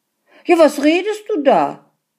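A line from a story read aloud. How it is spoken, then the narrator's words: Indignant man shouting. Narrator (German): rief der Mann empört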